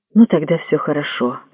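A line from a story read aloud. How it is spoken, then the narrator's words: Relieved mutter. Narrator (Russian): облегченно пробормотал Анадера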